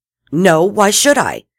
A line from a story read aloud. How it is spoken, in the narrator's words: Eve snapped, without thinking how it would sound